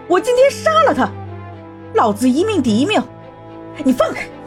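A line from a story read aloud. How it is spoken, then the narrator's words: Furious trembling yell. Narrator (Chinese): 楚萧气得浑身颤抖，嘴里嚷嚷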